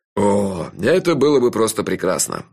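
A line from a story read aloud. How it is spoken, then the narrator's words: Sighing. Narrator (Russian): вздохнул шеф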